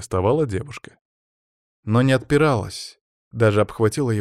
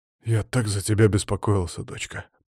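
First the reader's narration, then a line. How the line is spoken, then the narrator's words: Whispered. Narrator (Russian): прошептал Матвей Романович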